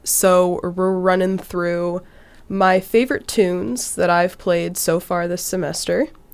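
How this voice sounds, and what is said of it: Sick, rough-sounding voice. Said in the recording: “I am a little sick right now, so that's kind of why my voice sounds like that. My roommates told me it's sexy”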